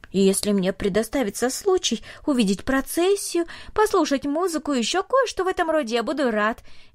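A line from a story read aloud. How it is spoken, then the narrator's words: Cheerful. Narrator (Russian): весело сказал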